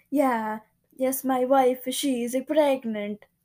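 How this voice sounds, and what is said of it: Imitates another person's accented voice. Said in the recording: “why'd you say it like that? Does he have an accent? ... That's how my Spanish teacher said it.”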